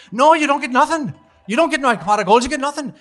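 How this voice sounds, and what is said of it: Put-on Irish accent. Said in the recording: “did the whole Irish accent, the whole bit”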